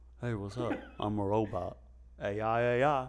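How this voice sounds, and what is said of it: Robotic put-on voice. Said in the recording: “robot voice. This is how robots are going to be talking.”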